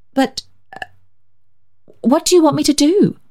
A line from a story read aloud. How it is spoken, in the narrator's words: she faltered at last